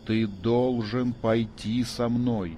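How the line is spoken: Insistent, clipped. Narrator (Russian): внушающе отчеканил

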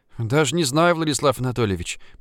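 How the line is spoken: Muttered. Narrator (Russian): пробормотала Ульяна

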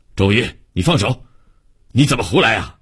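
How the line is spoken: Stern scolding. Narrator (Chinese): 王科长厉声训斥

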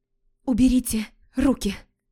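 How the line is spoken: Trembling, bewildered demand. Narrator (Russian): Потребовала дрожащим голосом девушка, не понимая, как могло подобное случиться

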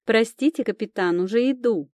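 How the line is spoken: Shouted. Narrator (Russian): прокричала

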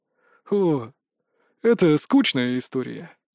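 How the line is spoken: Sighed. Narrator (Russian): вздохнул Сиг

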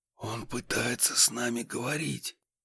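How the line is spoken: Whispered. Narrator (Russian): прошептал я

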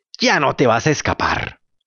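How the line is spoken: Two voices growling threateningly. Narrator (Spanish): las mismas 2 voces que gruñían amenazadoramente le dijeron

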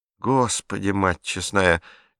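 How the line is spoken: Sighing. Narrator (Russian): Герта вздохнула

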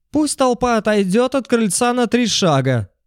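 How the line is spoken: Shrill male voice inside. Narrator (Russian): раздался изнутри чуть визгливый мужской голос

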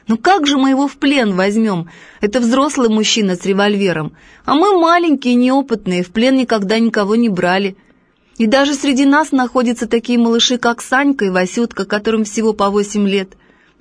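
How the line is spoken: Laughing, several voices. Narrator (Russian): некоторые даже засмеялись, говорят

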